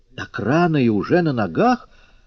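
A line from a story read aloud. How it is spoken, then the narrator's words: Exclaiming. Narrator (Russian): воскликнула кабачица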